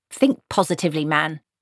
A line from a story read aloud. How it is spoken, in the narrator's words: snapped Granny